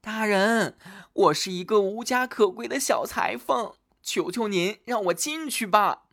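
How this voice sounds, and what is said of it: Pitiful, pleading voice. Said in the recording (Chinese): “一个可怜兮兮的声音说”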